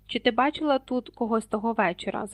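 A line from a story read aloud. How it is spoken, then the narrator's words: Plain question. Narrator (Ukrainian): запитав Гаррі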